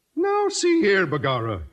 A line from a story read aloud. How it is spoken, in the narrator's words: O'Houlihan exclaimed with a merry twinkle in his Irish eye